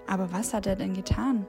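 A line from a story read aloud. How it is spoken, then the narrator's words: Plain. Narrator (German): fragte Pilatus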